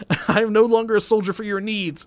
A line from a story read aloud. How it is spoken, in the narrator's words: I yelled